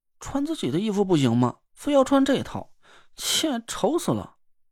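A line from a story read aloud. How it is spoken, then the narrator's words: Unhappy pouting mutter. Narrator (Chinese): 唐果儿不高兴的撅着嘴嘟囔了一句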